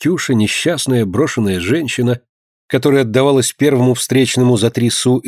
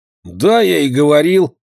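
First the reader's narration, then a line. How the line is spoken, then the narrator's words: Hoarse boy's voice. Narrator (Russian): хриплым голосом ответил мальчик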